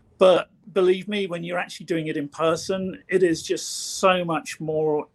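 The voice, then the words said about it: Choked-up, emotional voice. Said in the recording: “I'm getting choked up”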